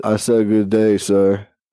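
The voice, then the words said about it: Imitates another person's voice, badly. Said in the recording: “my Charles Barkley impression ... that was really bad”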